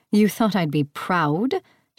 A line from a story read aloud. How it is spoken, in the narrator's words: She scoffed